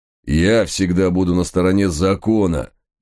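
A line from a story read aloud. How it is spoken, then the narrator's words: Angry growling. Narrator (Russian): гневно рычащего Гавкинса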